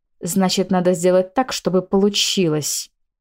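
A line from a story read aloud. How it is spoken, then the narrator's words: Hissed. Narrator (Russian): Зашипела Марианна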